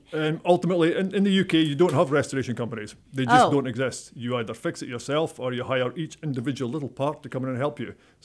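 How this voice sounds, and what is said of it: Scottish accent. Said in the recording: “I'm obviously not from this area... I'm from a place called Dundee in Scotland... I was thinking it was the Woodlands accent”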